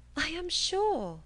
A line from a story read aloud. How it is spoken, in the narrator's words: cried Catherine